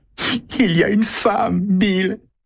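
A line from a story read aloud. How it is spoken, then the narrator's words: Sobbing. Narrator (French): dit-elle en fondant en sanglots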